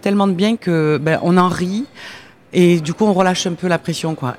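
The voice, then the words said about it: Slight southern French accent. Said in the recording (French): “vous avez ce petit accent qui vous trahit ... vous venez du Gard”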